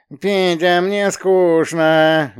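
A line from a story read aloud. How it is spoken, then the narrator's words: Nasal whiny voice. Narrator (Russian): гундела противным голосом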